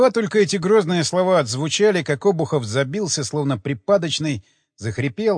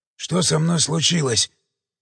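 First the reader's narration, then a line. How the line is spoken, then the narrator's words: Weak mumble. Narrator (Russian): слабым голосом пробормотал он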